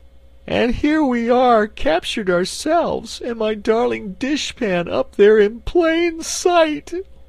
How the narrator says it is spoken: wailed the Cookie Cook, wiping her eyes

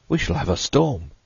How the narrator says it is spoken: Hyatt exclaimed

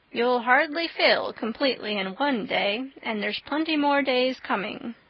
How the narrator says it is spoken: said Marilla

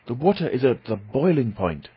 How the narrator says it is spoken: I cried

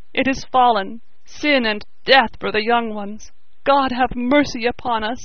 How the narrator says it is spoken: he sobbed

